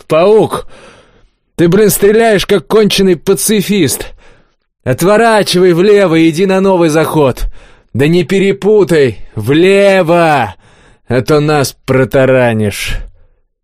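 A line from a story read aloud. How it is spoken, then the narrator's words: Shouted over radio. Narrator (Russian): Поднеся к губам радиостанцию, Олег выкрикнул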